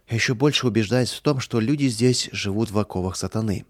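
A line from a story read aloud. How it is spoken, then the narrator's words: Regretful sigh. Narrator (Russian): с сожалением вздохнул Михаил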